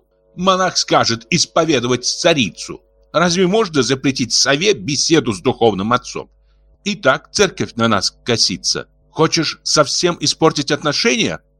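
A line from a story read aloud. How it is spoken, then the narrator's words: Sharp scolding. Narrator (Russian): прикрикнула на мужа Гульшари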